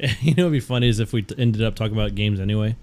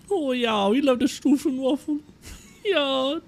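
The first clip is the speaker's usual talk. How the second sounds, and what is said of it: Put-on German accent. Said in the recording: “Can you do like a German accent? Without yelling”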